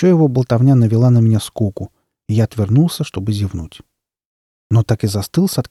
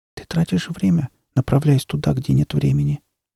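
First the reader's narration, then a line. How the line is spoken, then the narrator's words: Quiet young girl. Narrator (Russian): сказала тихо девочка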